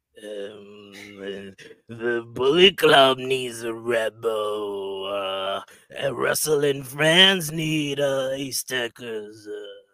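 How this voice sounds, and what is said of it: Imitates another person's voice, straining. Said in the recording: “your Gedo impression ... that hurts my voice every single time”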